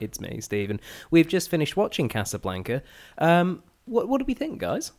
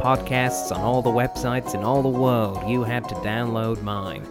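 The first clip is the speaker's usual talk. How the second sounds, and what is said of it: Imitates another person's voice. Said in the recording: “that wasn't Humphrey Bogart. That excellent impression”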